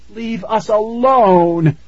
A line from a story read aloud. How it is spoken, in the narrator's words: Tara shouted